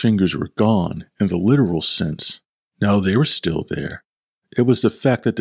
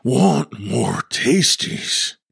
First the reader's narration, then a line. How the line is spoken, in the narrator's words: Bill murmured, the excitement in his voice increasing until his voice became what could only be described as a banshee scream